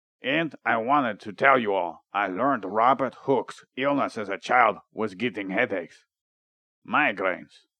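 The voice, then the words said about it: Count Dracula vampire voice. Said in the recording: “Why am I talking like this? ... You sound like Count Dracula.”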